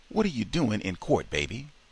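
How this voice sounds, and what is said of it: Weak, faint voice. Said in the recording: “asked in a weak voice that barely traveled over the phone lines”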